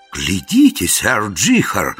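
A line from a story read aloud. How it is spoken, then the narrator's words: Exclaimed. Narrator (Russian): воскликнул Яртур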